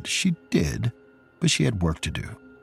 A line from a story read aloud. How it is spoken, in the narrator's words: A torn Lila murmured